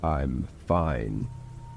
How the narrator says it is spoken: he said in a deep, threatening tone

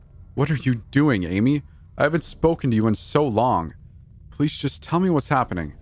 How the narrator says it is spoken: yelled out

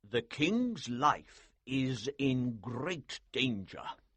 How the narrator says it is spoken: he said slowly

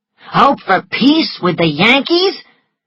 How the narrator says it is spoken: Gerald was shouting

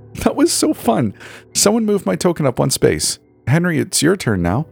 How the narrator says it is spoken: Bree said with a giggle and a newfound excitement

